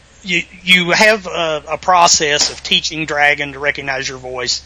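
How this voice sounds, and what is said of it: Southern Virginia accent. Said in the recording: “my voice, you know, which is Southern Virginia accent”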